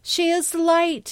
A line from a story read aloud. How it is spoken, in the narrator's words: screamed